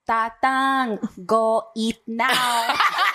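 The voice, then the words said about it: Exaggerated Filipino immigrant accent. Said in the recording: “speaking in a fob accent”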